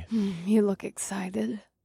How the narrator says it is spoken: Mahini murmured

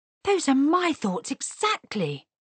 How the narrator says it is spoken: he cried

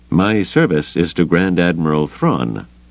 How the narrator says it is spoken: Pelion said stiffly

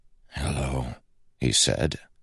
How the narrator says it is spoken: the word a rasp

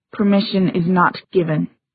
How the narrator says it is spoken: said Gia tightly

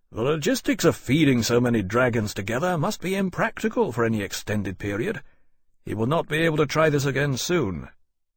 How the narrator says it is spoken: said calmly, loud enough to carry back to the men

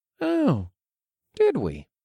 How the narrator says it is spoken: I asked in an innocent tone

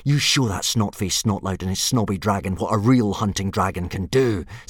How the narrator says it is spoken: said Hiccup urgently

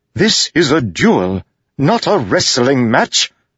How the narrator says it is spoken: shouted

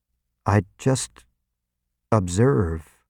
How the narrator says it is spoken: I said weakly

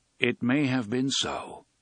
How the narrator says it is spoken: Roland agreed

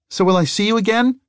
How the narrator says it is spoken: He called out

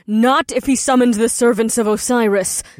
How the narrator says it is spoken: the succubus shouted as she shot through the opening above

